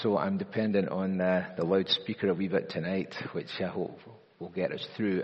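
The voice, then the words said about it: Voice strained, not its usual timbre. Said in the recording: “My voice is not its usual timbre.”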